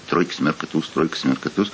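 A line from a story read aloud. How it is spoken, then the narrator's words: Muttering. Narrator (Russian): бормочет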